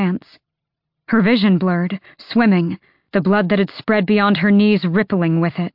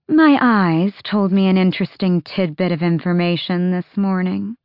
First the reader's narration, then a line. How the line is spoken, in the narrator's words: Maeve drawled